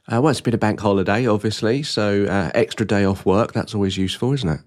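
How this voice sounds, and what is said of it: Rough voice from a cold. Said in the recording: “my voice is a bit worse for wear this today ... I've had a bit of a cold”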